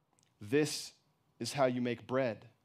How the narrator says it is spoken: she answered

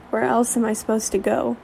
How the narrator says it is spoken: He chuckled, probably more from nerves than her joke

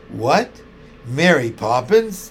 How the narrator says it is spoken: exclaimed Mrs

